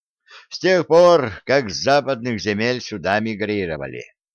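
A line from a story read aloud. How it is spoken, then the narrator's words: Heavy sigh. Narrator (Russian): тяжко вздохнул Гордон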